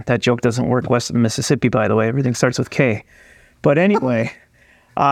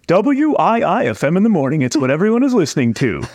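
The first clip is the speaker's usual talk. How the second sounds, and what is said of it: Radio announcer voice. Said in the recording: “had to do my radio voice”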